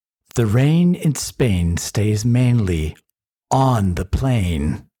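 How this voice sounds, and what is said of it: Villainous put-on accent. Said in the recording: “I like that accent today. It's appropriate for our episode. Very villainous, if you will.”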